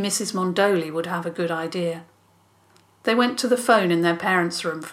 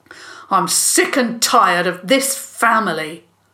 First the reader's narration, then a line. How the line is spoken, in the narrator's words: Joel said hotly